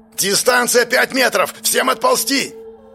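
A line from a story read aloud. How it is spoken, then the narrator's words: Yelling. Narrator (Russian): заорал он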